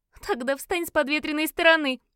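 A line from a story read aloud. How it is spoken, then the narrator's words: Giggle. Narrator (Russian): хихикнула Фиона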